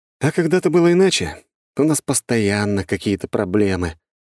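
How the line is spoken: Heavy sigh. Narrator (Russian): тяжело вздохнул я

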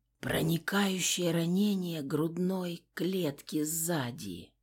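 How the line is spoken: Wheezing whisper. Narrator (Russian): прошептала сквозь хрипы

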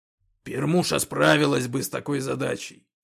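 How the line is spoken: Snorting. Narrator (Russian): фыркнул Когтеклык

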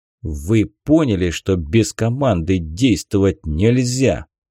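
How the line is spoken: Growl. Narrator (Russian): прорычал командир

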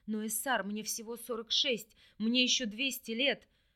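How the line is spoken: Shaken, pleading, strained. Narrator (Russian): врач с нескрываемой мольбой в голосе потрясенно выдавил

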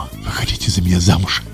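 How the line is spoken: Whisper. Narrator (Russian): шептал он ей

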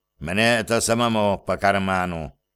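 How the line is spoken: Grumbling. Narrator (Russian): пробурчал он

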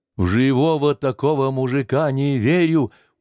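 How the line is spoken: Stubborn insistence. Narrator (Russian): упрямо говорила полуслепая Ольга

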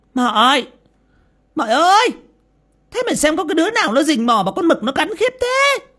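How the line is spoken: Irritated hiss. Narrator (Vietnamese): mụ Lý khó chịu mà rít lên

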